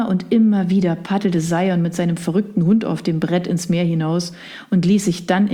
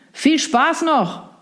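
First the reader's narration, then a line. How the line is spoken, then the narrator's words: Calling over crashing waves. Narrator (German): rief der noch, bevor die laut brechenden Wellen jedes weitere Wort verschluckten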